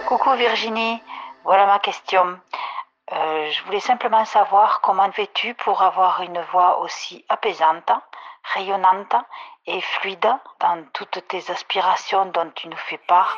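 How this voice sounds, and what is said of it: Warm, sunny regional accent. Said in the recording (French): “ton accent, waouh, waouh, waouh, ça met du soleil dans les cœurs”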